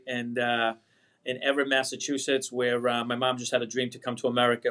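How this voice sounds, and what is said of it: Boston accent. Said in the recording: “I can tell your Boston accent”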